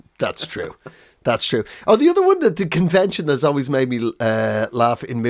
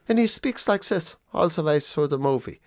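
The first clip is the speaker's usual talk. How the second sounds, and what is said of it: Put-on German accent. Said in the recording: “the German is speaking in the German accent. He's the baddie”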